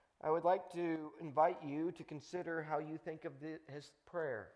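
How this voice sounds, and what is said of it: Usual voice. Nothing is said of it.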